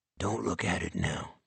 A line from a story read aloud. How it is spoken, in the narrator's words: whispered